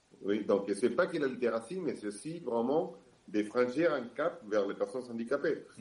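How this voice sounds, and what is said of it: Slight Argentine accent in French. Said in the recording (French): “vous l'entendez bien, j'ai un petit accent, je viens de l'Argentine”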